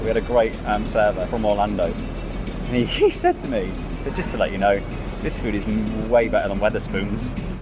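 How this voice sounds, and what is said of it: British accent. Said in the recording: “He clocked the British accent.”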